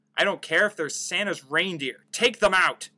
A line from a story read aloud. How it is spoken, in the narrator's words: barked Gunn